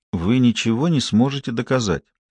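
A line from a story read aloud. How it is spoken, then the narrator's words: Whisper. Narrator (Russian): прошептал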